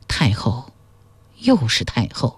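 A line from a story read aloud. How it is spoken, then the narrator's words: Deflated mumbling. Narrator (Chinese): 秦昭襄王 像泄了气的皮囊 喃喃说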